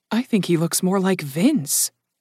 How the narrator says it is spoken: Kit muttered

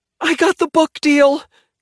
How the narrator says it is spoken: she shrieks

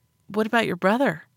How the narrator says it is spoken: I asked gently

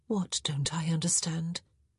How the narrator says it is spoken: She said softly

